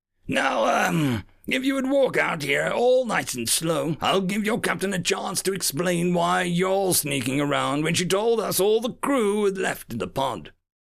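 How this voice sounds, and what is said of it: Gravelly villain character voice. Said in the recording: “in a gravelly voice”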